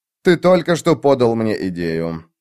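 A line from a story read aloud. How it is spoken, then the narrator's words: Muttered. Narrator (Russian): пробурчал он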